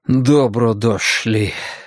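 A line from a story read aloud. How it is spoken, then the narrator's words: Sighing. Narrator (Russian): вздохнул Драккайнен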